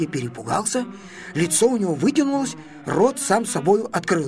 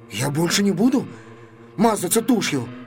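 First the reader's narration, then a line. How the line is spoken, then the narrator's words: Timid babbling. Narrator (Russian): пролепетал он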